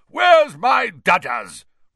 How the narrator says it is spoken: roared Aunt Marge

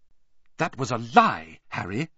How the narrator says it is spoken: said Hermione sharply

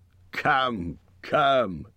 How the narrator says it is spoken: said Thorin, laughing

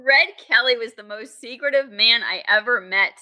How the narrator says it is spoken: said Partington

